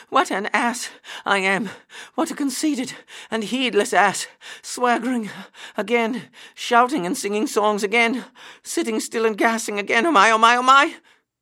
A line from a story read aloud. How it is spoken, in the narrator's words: he gasped as he panted along